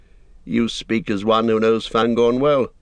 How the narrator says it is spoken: said Aragorn

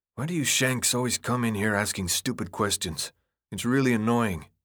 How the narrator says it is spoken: Minho sighed as if bored, then muttered, almost to himself

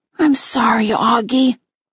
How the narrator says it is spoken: she said softly

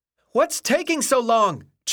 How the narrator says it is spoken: Chuck cried frantically

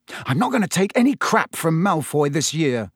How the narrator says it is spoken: he said angrily

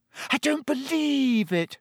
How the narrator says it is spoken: Hermione wailed

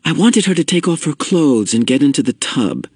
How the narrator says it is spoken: explained quickly

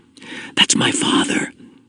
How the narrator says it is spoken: Jonas found himself whispering, as if he might wake the little ones if he spoke aloud

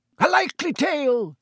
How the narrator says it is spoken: roared Sir Cadogan

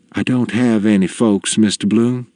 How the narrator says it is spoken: she says

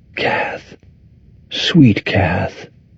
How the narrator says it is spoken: murmur, as if summoning her spirit

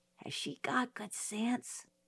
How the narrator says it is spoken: I whispered to Jim

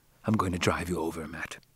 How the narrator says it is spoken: he whispered

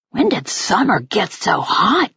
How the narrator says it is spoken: Jack muttered in my ear

